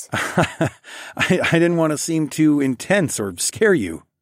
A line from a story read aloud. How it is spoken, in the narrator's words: I laughed